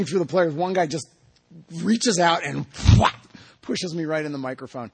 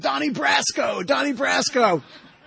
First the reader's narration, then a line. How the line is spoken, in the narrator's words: the players start screaming